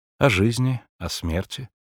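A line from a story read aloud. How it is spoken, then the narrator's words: Sighing. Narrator (Russian): вздохнула Агата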